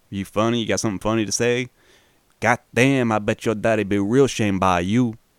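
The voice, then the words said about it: Indiana accent with weird Cajun lilt. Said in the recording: “that's not me fucking up the Indiana accent. The actor made that choice to take a weird Cajun lilt”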